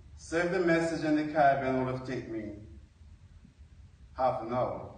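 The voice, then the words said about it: Non-North Carolina foreign accent. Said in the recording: “My accent don't sound like North Carolina.”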